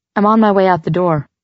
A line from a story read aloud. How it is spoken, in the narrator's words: I said in that same bland tone